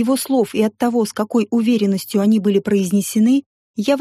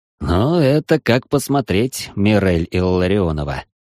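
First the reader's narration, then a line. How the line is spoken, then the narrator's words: Snorting. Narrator (Russian): хмыкнул он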